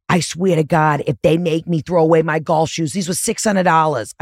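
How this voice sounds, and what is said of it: Quotes husband in thick accent. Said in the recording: “I don't know why I'm giving him such a thick accent right now”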